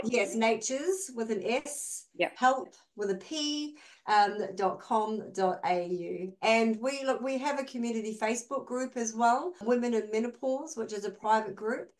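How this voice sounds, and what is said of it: Speaker's own regional accent. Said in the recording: “some people always hear it as Nature's Health because of my accent”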